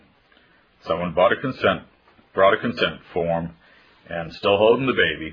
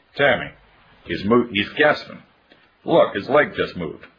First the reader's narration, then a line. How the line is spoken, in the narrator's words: she suddenly cried